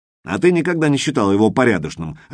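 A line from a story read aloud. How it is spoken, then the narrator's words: Barking. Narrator (Russian): рявкнул Джим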